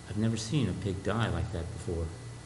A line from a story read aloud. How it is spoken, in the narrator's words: A young nurse quietly commented